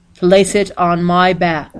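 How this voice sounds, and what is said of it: Deep voice. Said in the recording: “said a deep voice”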